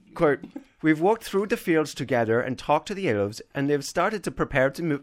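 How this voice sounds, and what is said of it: Bad put-on Irish-sounding accent. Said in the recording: “Do you want me to do this in a bad Icelandic accent? ... That's Irish. I just completely messed that up.”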